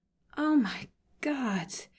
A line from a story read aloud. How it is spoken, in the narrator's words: Sokka says weakly